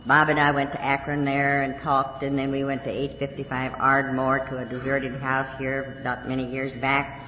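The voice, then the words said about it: Texas accent. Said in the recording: “with my Texas accent.”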